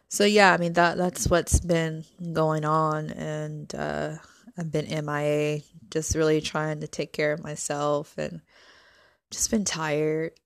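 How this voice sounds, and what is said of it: Hoarse, tired voice. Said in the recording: “my voice is kind of hoarse because everything is draining from allergies”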